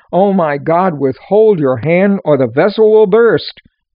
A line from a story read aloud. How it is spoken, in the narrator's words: he was so overwhelmed with the Holy Spirit's power that he cried out